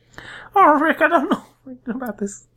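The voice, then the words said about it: Imitates a cartoon character's voice. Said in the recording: “a Rick and Morty accent”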